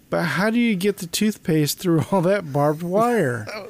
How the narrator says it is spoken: Marcia does a big sigh

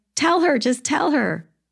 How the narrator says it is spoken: you'd be yelling

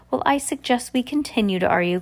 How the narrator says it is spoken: cried Irwin

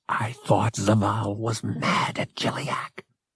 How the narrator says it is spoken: he whispered

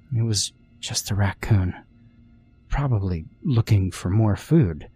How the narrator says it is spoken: I whispered to myself

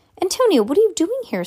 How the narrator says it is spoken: Sam exclaimed

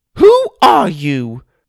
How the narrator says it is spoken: Mother cried

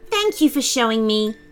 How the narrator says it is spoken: said Devin happily as his eyelids grew heavy

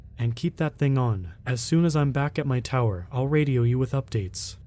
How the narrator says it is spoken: said in a slightly less terrifying tone

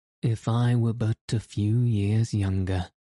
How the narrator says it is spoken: added the old diplomatist with a sigh

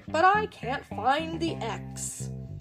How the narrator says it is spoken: grumbled the pirate

